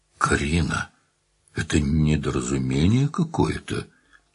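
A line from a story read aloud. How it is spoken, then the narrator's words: Weak mumble. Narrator (Russian): смог лишь пробормотать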